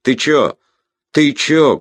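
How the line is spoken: Shout. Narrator (Russian): крикнул Бобер

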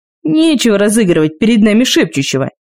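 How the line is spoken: Booming. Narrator (Russian): прогремел он

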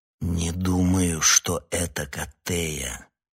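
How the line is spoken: Slow, forceful speech. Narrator (Russian): медленно проговорил я, вложив в эти слова всю свою волю

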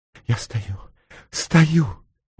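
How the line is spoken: Ecstatic whisper. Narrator (Russian): восторженно прошептала мисс Дезессар

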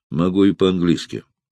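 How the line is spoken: Dry, curt. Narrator (Russian): сухо кинул Эраст Петрович

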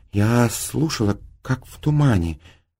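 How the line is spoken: Timid babble, female. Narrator (Russian): пролепетала она

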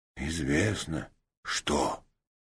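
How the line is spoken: Reverent whisper. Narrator (Russian): благоговейным шепотом ответил Рид

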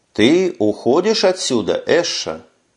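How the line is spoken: Plain. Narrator (Russian): спросила она

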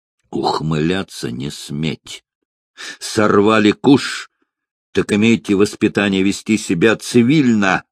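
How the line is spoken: Furious hiss. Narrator (Russian): Бешеным голосом прошипел граф

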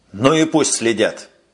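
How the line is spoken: Angry, barely restrained. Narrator (Russian): сердито сказал майор, готовый вот-вот потерять самообладание

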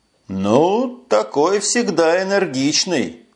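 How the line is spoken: Grumbling. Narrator (Russian): проворчал Эш

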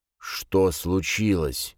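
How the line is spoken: Breathless. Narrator (Russian): выдохнул Джейс

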